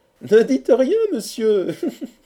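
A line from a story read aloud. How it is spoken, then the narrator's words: Young woman laughing harder. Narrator (French): reprit la jeune fille en riant encore plus fort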